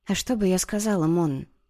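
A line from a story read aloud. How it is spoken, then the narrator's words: Strained whisper. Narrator (Russian): шепотом выдавила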